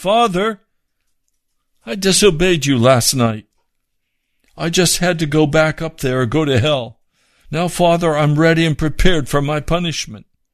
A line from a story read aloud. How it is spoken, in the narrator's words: She called out to him and said